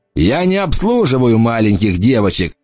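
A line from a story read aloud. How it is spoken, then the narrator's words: Loud guffaw. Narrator (Russian): захохотал тот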